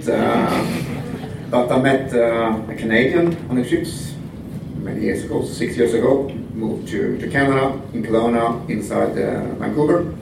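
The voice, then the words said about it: Swedish accent, singsong lilt. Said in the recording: “I'm Swedish, as you can hear from this beautiful singing accent.”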